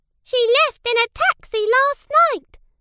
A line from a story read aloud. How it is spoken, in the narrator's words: squeaked the mouse